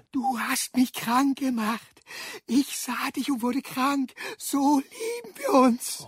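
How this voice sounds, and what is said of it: Whispering voice. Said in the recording (German): “flüsterte der Irre”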